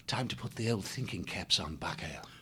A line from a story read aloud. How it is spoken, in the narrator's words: he murmured back to his friend